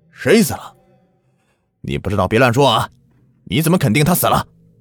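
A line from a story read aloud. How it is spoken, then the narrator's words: Loud. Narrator (Chinese): 我大声的说着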